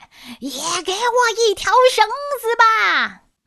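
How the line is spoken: Angry shout. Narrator (Chinese): 山老看了很生气，对着天空大喊

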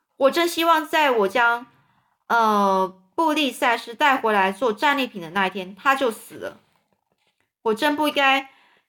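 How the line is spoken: Loud. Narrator (Chinese): 亚吉利大声地说

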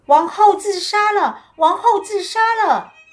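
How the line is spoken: Shout. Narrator (Chinese): 有人大喊

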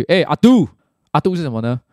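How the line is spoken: Calling out. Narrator (Chinese): 他的一个一起去玩的朋友…对着他叫了一句

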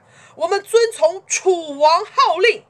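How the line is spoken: Shouting in unison. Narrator (Chinese): 诸侯们齐声一起高喊

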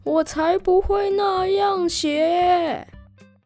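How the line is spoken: Lion shouting. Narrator (Chinese): 狮子大叫

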